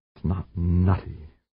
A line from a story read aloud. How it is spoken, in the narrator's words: Stavanger murmured